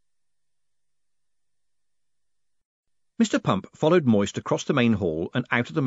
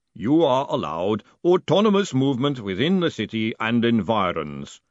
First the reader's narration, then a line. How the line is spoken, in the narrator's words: the golem rumbled